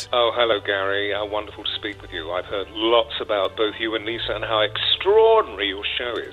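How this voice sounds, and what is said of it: British accent. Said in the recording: “anytime anyone speaks with a British accent, tally-ho, you believe them.”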